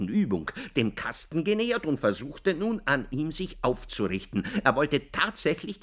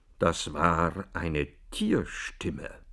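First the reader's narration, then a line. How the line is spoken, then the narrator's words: Noticeably quiet. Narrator (German): sagte der Prokurist, auffallend leise gegenüber dem Schreien der Mutter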